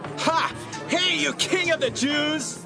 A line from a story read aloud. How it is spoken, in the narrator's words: They made fun of Jesus and shouted